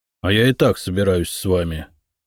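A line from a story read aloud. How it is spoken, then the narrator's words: Grumbling mutter. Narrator (Russian): буркнул Сева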